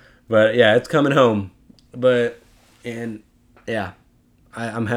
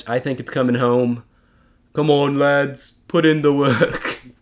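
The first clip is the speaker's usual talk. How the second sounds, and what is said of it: Put-on English accent. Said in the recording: “the English accent”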